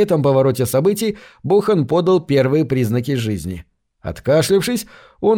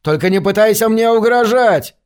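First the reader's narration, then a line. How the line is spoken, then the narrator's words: Yelling. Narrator (Russian): завопил Гейтс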